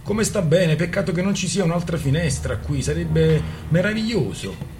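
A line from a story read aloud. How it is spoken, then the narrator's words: Enthusiastic exclamation. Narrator (Italian): esclamò battendo le mani per l'entusiasmo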